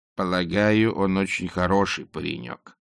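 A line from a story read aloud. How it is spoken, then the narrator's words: Gloomy interruption. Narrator (Russian): мрачно перебила ее матушка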